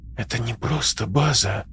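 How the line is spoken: Whisper. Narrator (Russian): прошептала она

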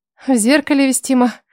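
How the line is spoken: Nervous shocked snort. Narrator (Russian): нервно хмыкнула, все еще находясь в глубоком шоке

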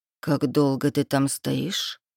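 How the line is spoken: Quiet question. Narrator (Russian): спрашивает тихо

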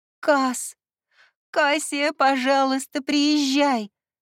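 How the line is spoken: Sobbing. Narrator (Russian): разрыдалась Ливия

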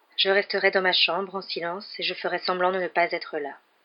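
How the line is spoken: Monotone voice. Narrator (French): répondit Harry d'une voix monocorde

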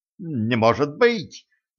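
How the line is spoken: Babbling. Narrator (Russian): залепетал трактирщик

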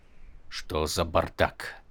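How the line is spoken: Muttered. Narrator (Russian): пробормотал Тефт

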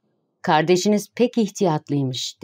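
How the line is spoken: Plain. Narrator (Turkish): dedi

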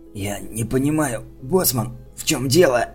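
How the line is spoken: Hoarse rasp. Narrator (Russian): прохрипел я

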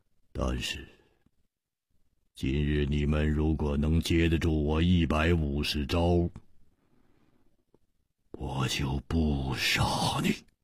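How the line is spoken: Cold, menacing. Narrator (Chinese): 他的目中忽然射出了一股杀机，冷冷地说

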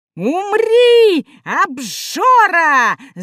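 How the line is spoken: Gnome yelling. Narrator (Russian): завопил гномик Юхан

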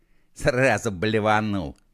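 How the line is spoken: Mocking grunt. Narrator (Russian): хмыкнул косой

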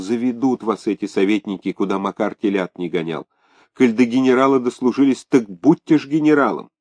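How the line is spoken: Whispered. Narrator (Russian): Фенечка Икатова шептала Ляпишеву

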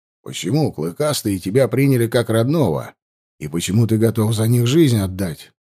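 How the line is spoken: Plain. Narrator (Russian): спросил я

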